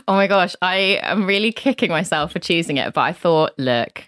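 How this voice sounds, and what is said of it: Usual voice. Nothing is said of it.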